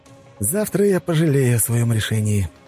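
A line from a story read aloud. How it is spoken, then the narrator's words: Sighing. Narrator (Russian): вздохнул я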